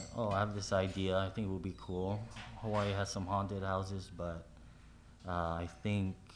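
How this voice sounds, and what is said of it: Usual voice. Nothing is said of it.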